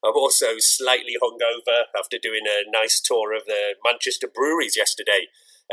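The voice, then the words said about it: Slightly hoarse voice. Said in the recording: “you may be able to hear that my voice is slightly hoarse today... hopefully my voice does hold up”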